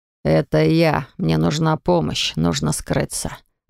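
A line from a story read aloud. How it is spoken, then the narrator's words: Suddenly hoarse voice. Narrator (Russian): проговорил дергач резко осипшим голосом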